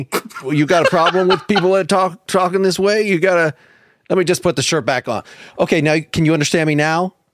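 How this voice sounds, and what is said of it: Thick Southern Tennessee drawl. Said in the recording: “I've got as thick a drawl. Born in Tennessee, you can hear it in my voice”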